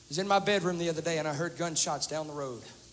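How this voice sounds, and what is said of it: Southern drawl. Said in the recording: “Don't let the southern drawl fool you.”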